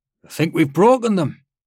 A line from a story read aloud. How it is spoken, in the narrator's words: Hipsick called out